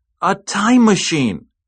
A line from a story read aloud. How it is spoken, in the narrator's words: he exclaimed